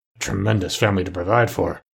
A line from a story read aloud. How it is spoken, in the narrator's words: muttered Scrooge